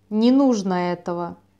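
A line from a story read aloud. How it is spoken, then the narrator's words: Irritated, curt. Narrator (Russian): раздраженно бросил примарх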